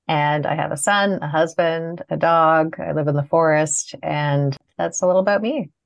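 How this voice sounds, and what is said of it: Canadian accent. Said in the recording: “I live in Canada. You can probably hear my accent.”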